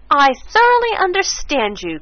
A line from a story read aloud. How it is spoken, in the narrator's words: cried Mrs